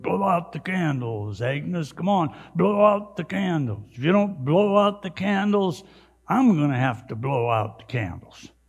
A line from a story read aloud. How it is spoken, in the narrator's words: gruffly mumbled